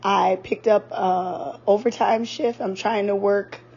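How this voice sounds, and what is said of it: Strained, failing voice. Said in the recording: “My voice has just been acting a mess since Monday. It's been holding on, though. Hopefully I don't lose my voice”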